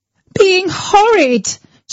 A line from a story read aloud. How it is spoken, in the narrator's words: she screamed